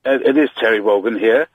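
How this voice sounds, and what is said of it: Impression of Terry Wogan. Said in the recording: “Is that supposed to be Terry Wogan? ... You're trying to do impersonations of important presenters.”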